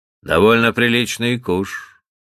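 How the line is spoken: Calm reply, butler. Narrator (Russian): по-прежнему спокойно отвечал батлер

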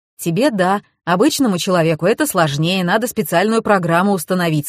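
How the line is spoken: Plain. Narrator (Russian): сказал Семен

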